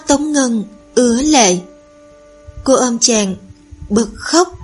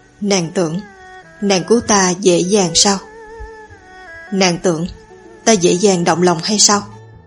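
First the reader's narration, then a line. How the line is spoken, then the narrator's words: Half crying, half laughing. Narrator (Vietnamese): dở khóc dở cười, nói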